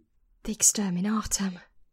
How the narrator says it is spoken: Ascaron breathed

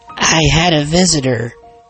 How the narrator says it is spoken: she said

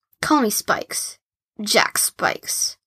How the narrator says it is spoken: said Tortoise

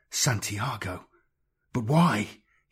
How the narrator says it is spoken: whispered, horrified

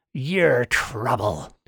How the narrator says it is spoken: he growled

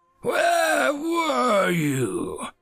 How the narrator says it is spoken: Darth Hominus growled out

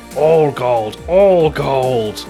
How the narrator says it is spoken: growls

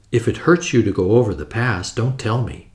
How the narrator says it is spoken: I said in a low voice

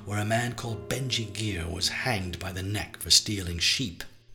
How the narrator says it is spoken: he said, growling like a local farmer

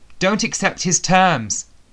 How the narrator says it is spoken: shouted

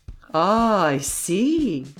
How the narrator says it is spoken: exclaimed Grimaudan

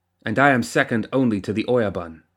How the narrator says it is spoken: snapped Masaki

